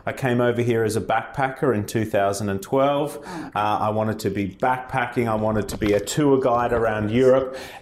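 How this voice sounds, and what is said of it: Australian accent. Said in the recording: “I am from Australia, as you can tell by my voice”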